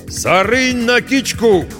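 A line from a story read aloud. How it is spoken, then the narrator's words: Shout. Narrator (Russian): крикнул он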